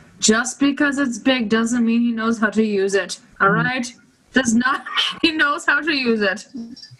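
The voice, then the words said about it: Put-on British accent. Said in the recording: “I'm going to be like the old mother in Bridgerton right now ... That was my British accent.”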